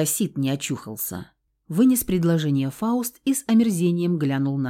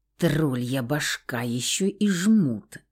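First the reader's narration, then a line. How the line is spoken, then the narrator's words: Hissing through teeth. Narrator (Russian): сквозь зубы прошипел Феникс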